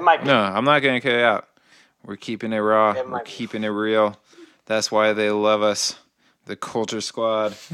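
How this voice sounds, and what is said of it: Slurred, tipsy speech. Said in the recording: “I've been drinking during this podcast, and I feel like I'm slurring my words... because I'm slurring”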